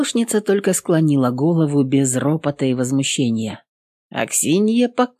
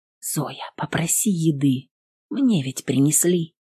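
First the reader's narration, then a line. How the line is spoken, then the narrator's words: Whisper. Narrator (Russian): прошептала Аксинья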